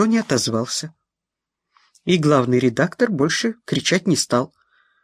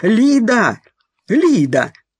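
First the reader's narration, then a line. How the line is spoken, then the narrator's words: Loud shout. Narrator (Russian): закричал на весь коридор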